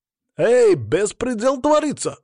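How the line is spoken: Shout from the corner. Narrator (Russian): закричал кто-то из угла маги

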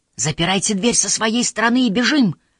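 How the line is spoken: Shouting. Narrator (Russian): крикнул Тамакити

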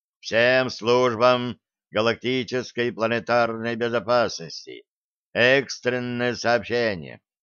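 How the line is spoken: Gloomy broadcast voice. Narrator (Russian): мрачным голосом начала вещать

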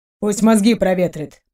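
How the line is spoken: Grumbling. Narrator (Russian): проворчал тот

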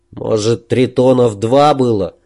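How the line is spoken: Gloomy supposition. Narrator (Russian): мрачно предположил Муса

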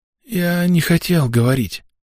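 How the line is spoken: Hoarse wheeze. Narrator (Russian): прохрипел парень

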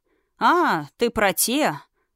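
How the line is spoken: Joyless snort. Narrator (Russian): невесело хмыкнул

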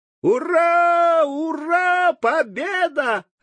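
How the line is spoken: Joyful yell. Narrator (Russian): радостно заорал Тим

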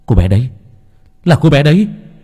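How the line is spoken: Sudden exclamation. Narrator (Vietnamese): Nam thốt lên

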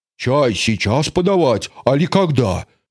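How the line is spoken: Deep bass voice. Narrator (Russian): пробасила Луша

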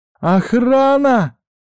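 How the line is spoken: Shouted. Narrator (Russian): выкрикнула Арису

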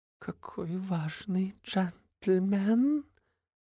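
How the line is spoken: Purring. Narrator (Russian): Промурлыкала она

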